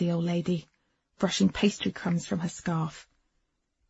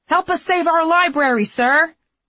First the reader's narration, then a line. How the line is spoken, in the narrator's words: Mina yelled at him